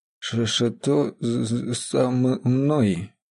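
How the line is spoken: Hoarse croak. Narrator (Russian): прохрипел

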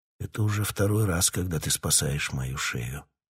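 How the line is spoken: Whisper. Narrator (Russian): прошептал он

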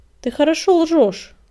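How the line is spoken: Stern mentor's bark. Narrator (Russian): Сурово рявкнул он, вспомнил об обязанностях наставника

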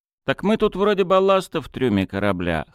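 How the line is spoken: Wry snort. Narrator (Russian): хмыкнул Ларин

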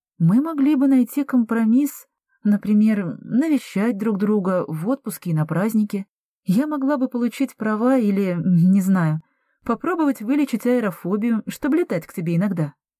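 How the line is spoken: Uncertain. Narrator (Russian): предложила Андреа неуверенно

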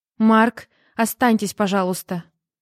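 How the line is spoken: Loud, desperate cry. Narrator (Russian): громко проговорила Жанна, и голос ее был похож на отчаянный вскрик

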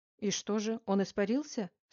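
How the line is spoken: Stern question. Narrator (Russian): строго спросил Новицкий

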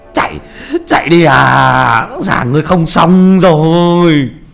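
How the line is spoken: Terrified old man screaming. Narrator (Vietnamese): Ông mo kinh hãi gào lên

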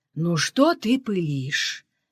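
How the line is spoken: Soft. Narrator (Russian): мягко сказала Тамара

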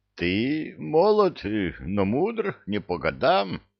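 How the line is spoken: Hoarse stranger's reply. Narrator (Russian): хриплым голосом ответил незнакомец

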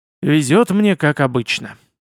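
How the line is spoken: Mumble. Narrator (Russian): пробормотал

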